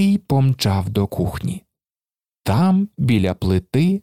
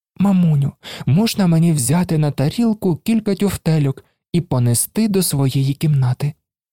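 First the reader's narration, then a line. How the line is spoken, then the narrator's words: Child asking very tenderly. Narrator (Ukrainian): попросив малий якнайніжнішим голосом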